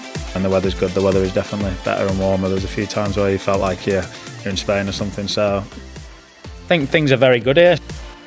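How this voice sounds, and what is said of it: Northern English accent. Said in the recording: “He's a man of the north, so there may be language problems ... It's probably harder for other people understanding my accent.”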